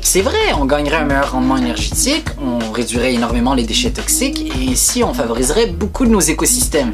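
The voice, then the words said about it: Québécois French accent. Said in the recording (French): “un youtubeur québécois ... Attention pour le petit accent.”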